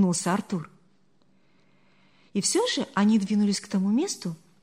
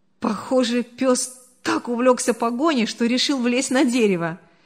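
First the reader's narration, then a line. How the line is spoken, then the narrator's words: Laughing comment. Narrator (Russian): Сквозь смех прокомментировал Артур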